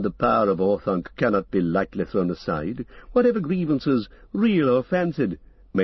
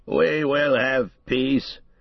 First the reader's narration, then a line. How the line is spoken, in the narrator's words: said Theoden at last, thickly and with an effort